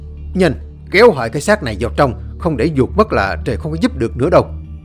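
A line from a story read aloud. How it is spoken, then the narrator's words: Loud urgent shout. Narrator (Vietnamese): Ông thầy liền mở bừng mắt ra hét lớn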